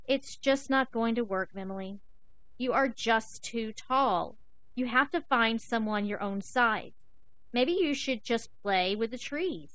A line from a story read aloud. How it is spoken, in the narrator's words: the zebras and the elephants sadly said